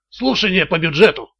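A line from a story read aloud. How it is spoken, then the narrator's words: Muttered. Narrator (Russian): пробормотал Блейк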